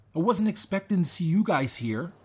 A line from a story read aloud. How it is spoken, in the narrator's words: Rob exclaimed